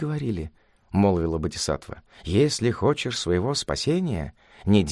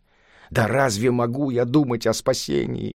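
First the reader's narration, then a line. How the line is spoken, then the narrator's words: Monster's angry exclamation. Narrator (Russian): гневно воскликнуло чудовище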